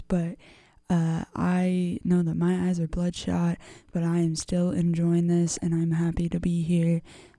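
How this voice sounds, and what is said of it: Tired-sounding voice. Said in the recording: “I'm really tired. I don't know if you can hear it in my voice. Maybe it sounds more like that radio voice,”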